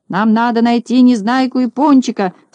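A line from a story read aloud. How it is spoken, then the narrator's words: Shouted back. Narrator (Russian): закричал в ответ Знайка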